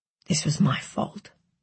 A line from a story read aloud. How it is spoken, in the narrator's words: he mumbled into his hand